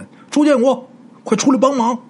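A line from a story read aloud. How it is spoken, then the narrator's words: Shouting. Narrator (Chinese): 吴大师啊就朝旁边那屋就喊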